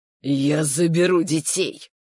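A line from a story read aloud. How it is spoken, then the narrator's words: Hissing. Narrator (Russian): прошипел наконец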